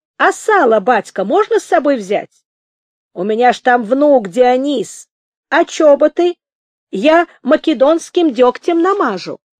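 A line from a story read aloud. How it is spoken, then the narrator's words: Shouting. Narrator (Russian): Костогрыз крикнул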